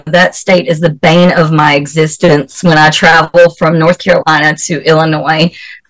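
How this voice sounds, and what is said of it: Southern American accent. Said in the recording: “everybody's like, oh, you have the cutest southern accent. I don't hear it, but everybody else does.”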